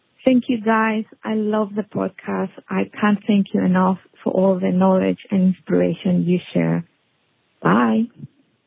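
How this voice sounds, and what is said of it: Latin American-tinged English accent. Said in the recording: “sounds like maybe you're from Argentina and not New Zealand ... It's not a New Zealand accent ... a twang of Latin in there”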